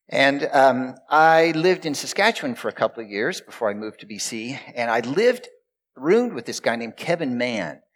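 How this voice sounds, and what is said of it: Texan accent. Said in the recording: “I'm from Texas originally. You've kind of probably noticed the accent.”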